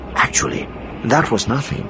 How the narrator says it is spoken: he added, lowering his voice still more

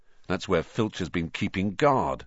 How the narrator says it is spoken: Ron muttered

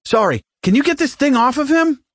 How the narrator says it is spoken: Mattis shouted

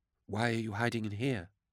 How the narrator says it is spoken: Beckwin asked softly

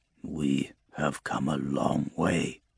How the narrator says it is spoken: he murmurs

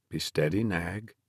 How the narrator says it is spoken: the horse doctor said calmly

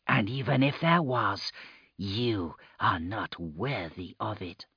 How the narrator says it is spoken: Murta murmured

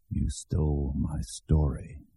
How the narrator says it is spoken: he'd said

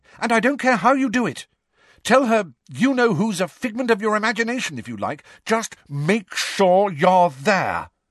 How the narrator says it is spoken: said Angelina fiercely

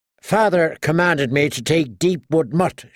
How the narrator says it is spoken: snapped

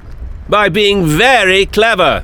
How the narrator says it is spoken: shouted the doctor

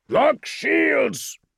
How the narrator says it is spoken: Azoth bellowed out the command

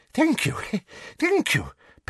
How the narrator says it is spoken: panted Professor Flitwick

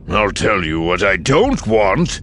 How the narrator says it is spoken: Ranking countered, his voice starting to rise

